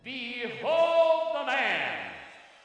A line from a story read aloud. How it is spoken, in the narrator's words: the people were screaming